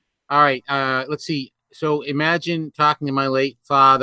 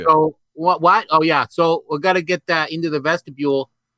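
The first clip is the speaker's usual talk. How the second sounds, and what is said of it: Put-on thick New England accent. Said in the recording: “a New Englander with a thick New England accent ... you're putting on ... A New Englander”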